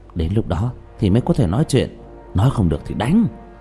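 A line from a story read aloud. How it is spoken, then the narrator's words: Quiet. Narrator (Vietnamese): Trương Vô Sanh nhỏ giọng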